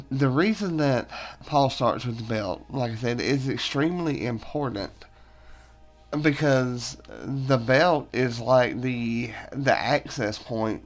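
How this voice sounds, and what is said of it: Voice cutting in and out. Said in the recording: “my voice is like cutting in and out, it's that time of year for me”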